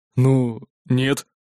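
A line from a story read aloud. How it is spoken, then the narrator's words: Grumbling mutter. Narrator (Russian): буркнул он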